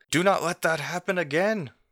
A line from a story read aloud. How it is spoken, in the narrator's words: As Olo shouts out to you all